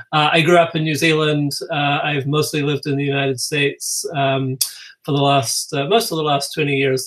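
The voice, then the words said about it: Non-American, New Zealand accent. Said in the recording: “If you're hearing my accent, you're probably thinking that's probably not a Minnesota accent.”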